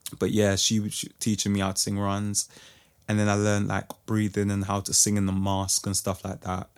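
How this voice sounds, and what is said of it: Tired-sounding voice. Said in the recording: “My voice is a bit tired”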